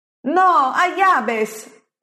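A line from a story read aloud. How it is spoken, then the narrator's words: Shouting crowd. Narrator (Italian): urlano altri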